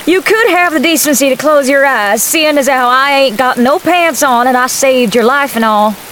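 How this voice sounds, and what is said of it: Southern Georgia accent. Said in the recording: “You sound like a good Georgia girl”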